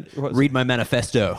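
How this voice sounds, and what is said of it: Put-on American accent. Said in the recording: “can only say one thing in his American accent... The vowels, manifesto. It's like you're an American.”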